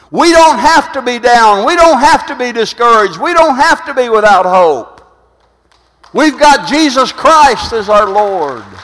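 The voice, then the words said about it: Loud, shouting preaching voice. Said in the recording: “quit screaming, so if I'm too loud, turn me down a little bit”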